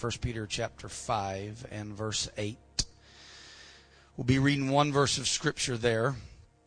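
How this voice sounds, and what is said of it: Slightly raspy voice. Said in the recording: “my voice is a little raspy”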